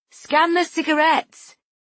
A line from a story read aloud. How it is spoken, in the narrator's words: I called out